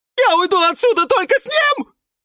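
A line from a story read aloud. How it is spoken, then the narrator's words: High-pitched shriek. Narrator (Russian): взвизгнул Юра неожиданно высоким голосом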